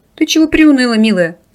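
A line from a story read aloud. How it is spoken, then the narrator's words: Loud laughter. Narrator (Russian): расхохотался Рис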